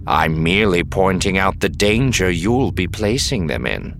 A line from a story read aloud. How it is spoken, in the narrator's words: Serpa said evenly